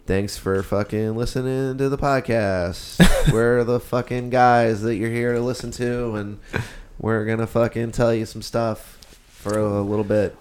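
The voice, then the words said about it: Sad, flat-sounding delivery. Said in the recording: “Why do you sound so sad? Why do you sound so sad”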